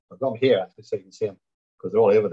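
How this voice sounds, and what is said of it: Stoke-on-Trent English accent. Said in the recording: “Stoke-on-Trent, hence the accent, you could notice.”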